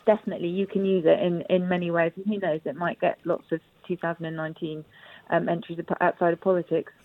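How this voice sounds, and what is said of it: Strained, failing voice. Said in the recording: “Sorry, I'm losing my voice.”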